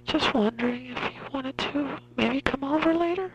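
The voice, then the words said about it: Put-on girl voice. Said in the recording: “Say it in your girl voice. ... Can you do the girl voice?”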